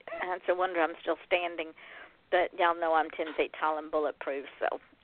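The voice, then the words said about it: Strained, failing voice. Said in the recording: “I'm about to lose my voice. I don't know what's going on with my voice.”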